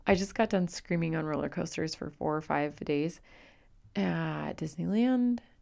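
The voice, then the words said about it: Raspy, hoarse voice. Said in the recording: “please excuse my raspy voice ... I can't quite get my voice back to normal ... it's just going to be a little bit raspy”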